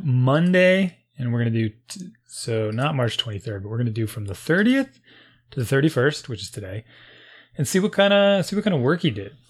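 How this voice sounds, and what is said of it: Messed-up, off-sounding voice. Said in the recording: “I know my voice is all messed up.”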